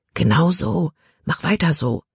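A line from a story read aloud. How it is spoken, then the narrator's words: Quiet voice. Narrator (German): sprach Caleb mit leiser Stimme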